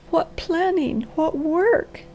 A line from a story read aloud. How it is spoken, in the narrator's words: she sobbed